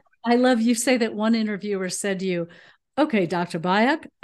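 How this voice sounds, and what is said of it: Usual voice. Nothing is said of it.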